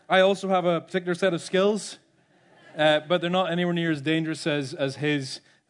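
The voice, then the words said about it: Speaks with a distinctive regional accent. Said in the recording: “I don't know if you might recognize my accent.”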